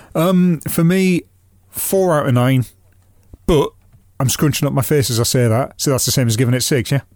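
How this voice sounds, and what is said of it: Northern English accent. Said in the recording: “I've already got a strange northern accent”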